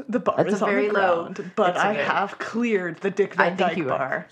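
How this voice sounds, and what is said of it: Usual voice. Nothing is said of it.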